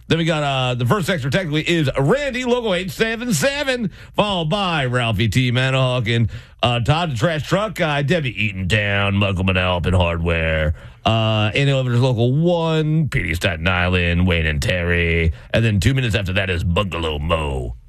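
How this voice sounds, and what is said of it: Smooth radio announcer voice. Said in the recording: “It's my sweet radio voice.”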